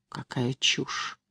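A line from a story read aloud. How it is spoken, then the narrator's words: Quiet embarrassed voice. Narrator (Russian): тихо сказала я, боясь покраснеть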